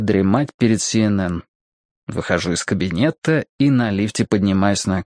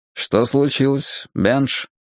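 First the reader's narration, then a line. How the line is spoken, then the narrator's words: Calm question. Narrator (Russian): спросил я спокойно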